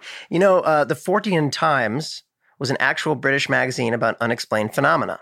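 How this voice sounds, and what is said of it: Usual voice. Nothing is said of it.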